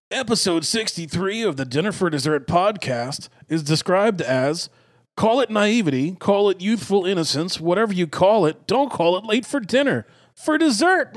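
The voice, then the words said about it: Put-on good guy reading voice. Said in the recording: “I'll do it in my good guy voice.”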